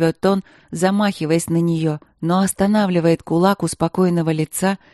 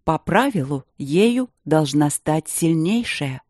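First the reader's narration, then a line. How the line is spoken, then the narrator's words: Soft. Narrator (Russian): мягко говорит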